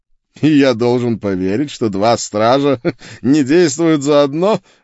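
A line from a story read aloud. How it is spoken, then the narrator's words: Mocking laughter. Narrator (Russian): глумливо рассмеялся чародей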